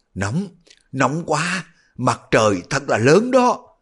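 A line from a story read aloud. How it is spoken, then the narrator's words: Woman moaning. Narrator (Vietnamese): Ngưu thị đột nhiên rên rỉ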